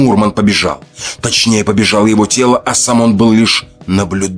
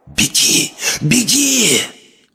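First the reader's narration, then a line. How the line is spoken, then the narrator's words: Whisper inside the head. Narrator (Russian): Вновь появился шепот в голове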